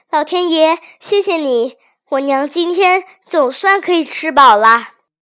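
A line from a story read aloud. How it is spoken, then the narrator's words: Happy shout. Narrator (Chinese): 他高兴的大叫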